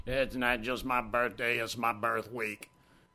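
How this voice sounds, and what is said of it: Bad impression of DJ E. Rodney Jones. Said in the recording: “Doing a bad impersonation of E. Rodney right there.”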